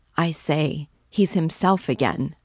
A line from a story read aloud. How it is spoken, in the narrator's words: she said